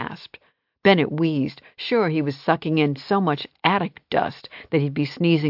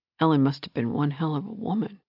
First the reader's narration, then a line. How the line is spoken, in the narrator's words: he muttered